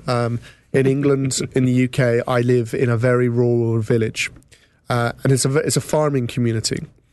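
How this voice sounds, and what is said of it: English accent. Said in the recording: “as you may have gathered from my accent, I'm from England”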